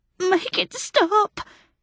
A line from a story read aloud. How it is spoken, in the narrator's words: he cried